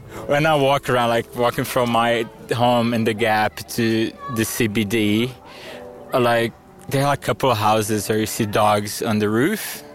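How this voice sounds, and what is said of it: Brazilian accent, mistaken for French. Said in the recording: “the only people that can tell I'm Brazilian are Queenslanders. Even people from Alice, they'd normally think I'm French for my accent.”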